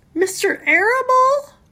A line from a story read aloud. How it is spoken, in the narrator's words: sobbed Wilbur